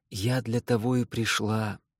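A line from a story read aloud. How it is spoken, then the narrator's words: Confiding tone. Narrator (Russian): доверительным тоном добавляет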